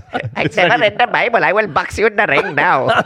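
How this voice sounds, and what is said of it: Put-on Indian accent. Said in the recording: “your Indian accent”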